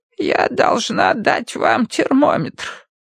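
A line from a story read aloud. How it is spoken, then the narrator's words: Creaky voice. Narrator (Russian): проскрипела она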